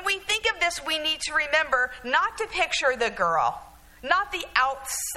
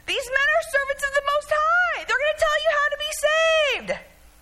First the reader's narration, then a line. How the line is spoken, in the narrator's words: The girl keeps shouting